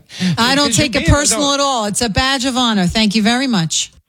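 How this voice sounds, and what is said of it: Very thick New York accent. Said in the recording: “her accent ... 10, being a very thick New York accent ... I'm going to give her a 10”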